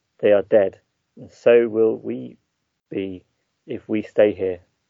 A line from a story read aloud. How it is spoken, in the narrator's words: Slowly and as calmly as you can, you say